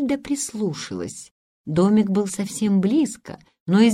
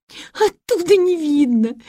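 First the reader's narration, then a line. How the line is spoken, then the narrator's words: Passionate sobbing. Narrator (Russian): страстно рыдала Гретель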